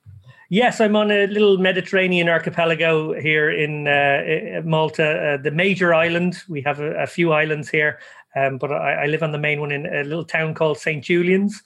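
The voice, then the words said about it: Irish accent. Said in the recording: “accent notwithstanding, you're actually not in Ireland. You're not in the Emerald Isle.”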